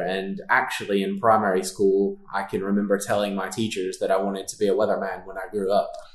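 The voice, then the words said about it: Texas Gulf Coast accent. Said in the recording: “you'll probably recognize with the accent, I'm not from around here. So I grew up near the coast of Texas, the Gulf Coast ... right on the border of Texas and Louisiana”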